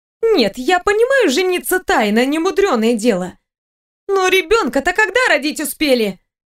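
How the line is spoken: Bewildered exclamation. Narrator (Russian): Воскликнула Айра

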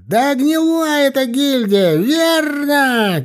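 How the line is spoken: Shrill shout. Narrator (Russian): крикнул кто-то пронзительным голосом

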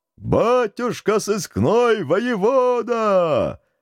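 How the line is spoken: Crowd roaring almost in unison. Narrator (Russian): Едва ли не хором проревела толпа

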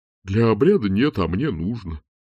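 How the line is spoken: Dean muttering. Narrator (Russian): пробурчал декан

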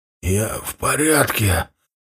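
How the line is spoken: Strained hoarse rasp. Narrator (Russian): собравшись силами прохрипел я

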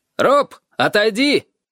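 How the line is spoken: Shout. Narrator (Russian): крикнул он

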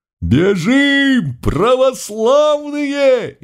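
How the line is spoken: Frantic scream. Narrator (Russian): истошно завопил кто-то из самых первых рядов

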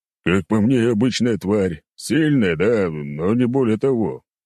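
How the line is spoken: Old man's deep bass. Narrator (Russian): пробасил старик

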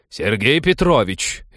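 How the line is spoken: Loud bark over noise. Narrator (Russian): рявкнула она, в легкую перекрыв их гам

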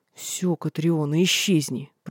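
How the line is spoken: Growled. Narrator (Russian): прорычал он

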